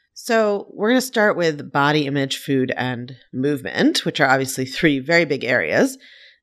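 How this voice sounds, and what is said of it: Sniffly, stuffed-up congested voice. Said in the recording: “I'm a little bit sniffly today ... I sound a bit stuffed up”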